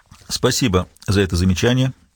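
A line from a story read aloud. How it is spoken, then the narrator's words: Neutral tone. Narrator (Russian): нейтральным тоном сказал Хультин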